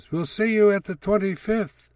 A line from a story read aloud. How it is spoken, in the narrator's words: old friends called out parting promises